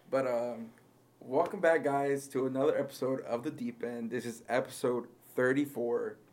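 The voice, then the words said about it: Strained, fading voice. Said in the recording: “I'm still losing my voice”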